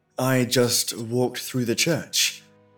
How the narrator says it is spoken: answered

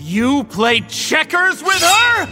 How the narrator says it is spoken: He shouted

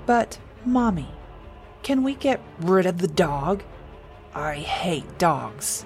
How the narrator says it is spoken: Daniel said, his voice turning into a growl

